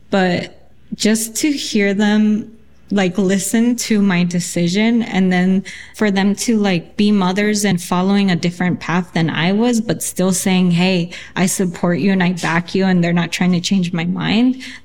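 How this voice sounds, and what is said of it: Choked up, emotional voice. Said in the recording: “I'm getting choked up”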